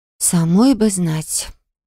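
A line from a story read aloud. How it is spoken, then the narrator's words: Quiet reply. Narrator (Russian): тихо ответила я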